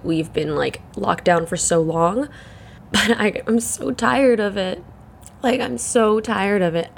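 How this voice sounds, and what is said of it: Croaky, congested morning voice. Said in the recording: “my voice is really croaky. It's the morning. My nasals are congested.”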